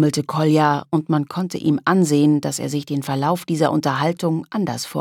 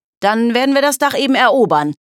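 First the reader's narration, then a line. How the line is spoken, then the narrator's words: Called out. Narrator (German): rief Loris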